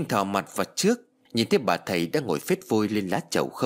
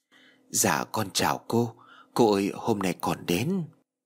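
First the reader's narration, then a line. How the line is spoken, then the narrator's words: Soft voice. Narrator (Vietnamese): Trinh khẽ nói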